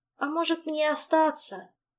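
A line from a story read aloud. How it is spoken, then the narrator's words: Uncertain suggestion. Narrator (Russian): неуверенно предположила Ольга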